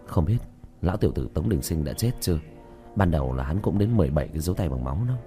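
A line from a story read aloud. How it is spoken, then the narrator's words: Soft whisper. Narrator (Vietnamese): Tiểu Thất khẽ thì thầm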